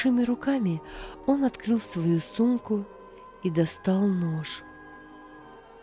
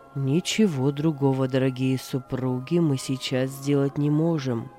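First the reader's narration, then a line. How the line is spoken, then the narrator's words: Deep chest voice. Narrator (Russian): произнес доктор глубоким грудным голосом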